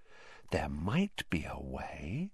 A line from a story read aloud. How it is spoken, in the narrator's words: said Hermione slowly, dropping her voice still further